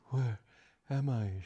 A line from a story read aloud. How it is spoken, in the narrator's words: she murmured